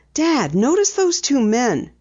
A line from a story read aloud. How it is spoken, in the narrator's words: whispered